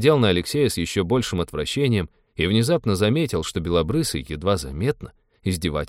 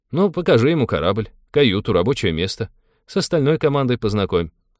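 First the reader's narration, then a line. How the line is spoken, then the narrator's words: Cheerful suggestion. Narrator (Russian): бодро предложил капитан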